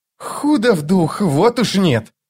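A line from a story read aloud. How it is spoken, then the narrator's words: Mocking, through gritted teeth. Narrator (Russian): с издевкой процедил Крокус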